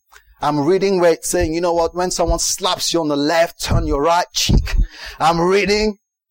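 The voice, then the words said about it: American preacher accent. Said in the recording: “talking like an American preacher”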